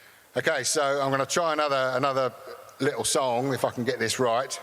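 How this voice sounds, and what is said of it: Usual voice. Nothing is said of it.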